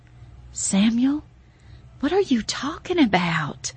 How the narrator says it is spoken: asked, the words barely above a breathy whisper as they exited from my swollen throat

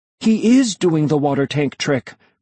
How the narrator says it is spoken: I exclaimed to Melody

